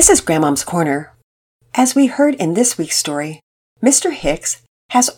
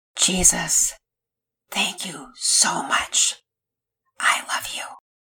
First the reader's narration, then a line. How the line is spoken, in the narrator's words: More happy tears splashed out, and he whispered in the dark